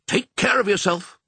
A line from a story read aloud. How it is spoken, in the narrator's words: barked the sheepdog